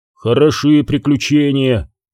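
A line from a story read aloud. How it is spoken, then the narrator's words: Grumbling. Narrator (Russian): проворчал Канис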